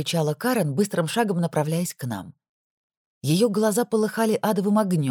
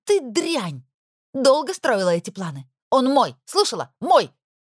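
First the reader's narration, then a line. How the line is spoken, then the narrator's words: Shouting. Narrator (Russian): кричала она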